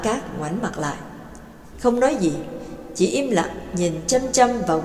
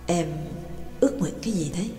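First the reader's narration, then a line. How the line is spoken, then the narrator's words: Soft question. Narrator (Vietnamese): Trương Lập mới khẽ hỏi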